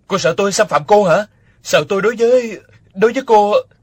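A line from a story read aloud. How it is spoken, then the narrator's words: Angry shout. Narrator (Vietnamese): Nỗi tức giận trào lên đầy ngực, địch dân quát lên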